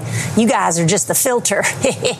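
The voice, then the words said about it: George W. Bush impression. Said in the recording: “That's a great impression”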